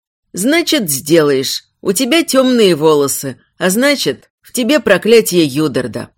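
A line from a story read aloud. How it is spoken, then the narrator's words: Cold reply. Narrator (Russian): холодно ответили ей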